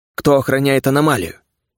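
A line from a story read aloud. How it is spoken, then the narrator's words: Decisive question. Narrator (Russian): решительным тоном спросил Шитанг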